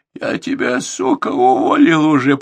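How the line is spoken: Hoarse rasp. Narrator (Russian): прохрипел Борзенко

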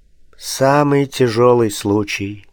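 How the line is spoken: Quiet. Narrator (Russian): сказал тихо

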